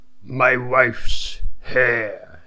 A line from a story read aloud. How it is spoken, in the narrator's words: said in a hoarse voice